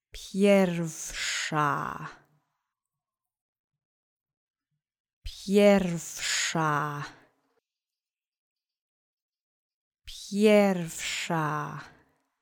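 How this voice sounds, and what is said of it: Speaking a word very slowly. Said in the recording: “say it very slowly ... Repeat after me slowly three times.”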